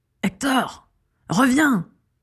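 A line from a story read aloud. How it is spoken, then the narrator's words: Furious hiss. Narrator (French): siffla la voix furieuse de Rascus Crabbe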